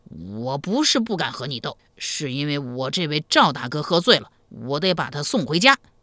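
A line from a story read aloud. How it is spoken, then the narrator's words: Loud. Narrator (Chinese): 铁二蛋 不愿意向齐二娇服输，大声说道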